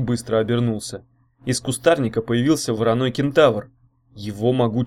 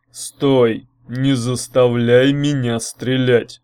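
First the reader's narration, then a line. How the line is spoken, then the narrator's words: Thundering menacing voice. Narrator (Russian): прогремел грозный голос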